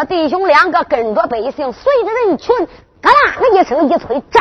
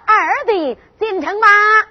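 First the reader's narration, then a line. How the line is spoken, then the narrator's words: Shout. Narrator (Chinese): 喊了一声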